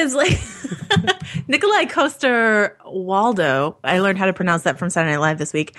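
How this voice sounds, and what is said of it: Usual voice. Nothing is said of it.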